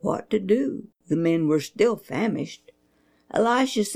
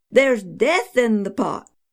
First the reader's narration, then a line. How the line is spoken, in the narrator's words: They cried